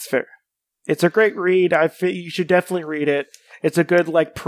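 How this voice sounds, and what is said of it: Usual voice. Nothing is said of it.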